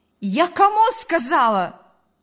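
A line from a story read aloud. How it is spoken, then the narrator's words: Shouting. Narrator (Russian): закричала мать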